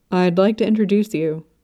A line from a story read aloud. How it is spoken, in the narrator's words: Prince Binghe said